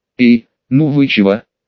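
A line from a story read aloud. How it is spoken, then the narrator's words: Mock tearful whine. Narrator (Russian): нарочито плаксиво проскулил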